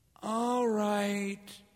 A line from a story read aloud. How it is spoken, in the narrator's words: he said sleepily